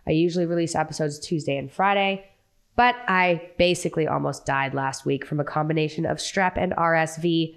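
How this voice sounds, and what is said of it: Sick, weakened voice. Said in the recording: “I'm barely alive as it is. You can probably hear it in my voice.”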